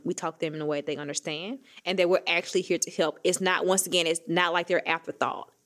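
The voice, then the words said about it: Southern US country accent. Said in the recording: “I have a country accent. It's not going anywhere. I left Mississippi in 2012, 2013.”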